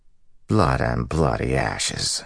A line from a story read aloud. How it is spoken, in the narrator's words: he muttered